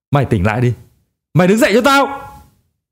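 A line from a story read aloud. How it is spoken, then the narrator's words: Restrained shout. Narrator (Vietnamese): Ông hét lên bằng chất giọng đã bị kiềm chế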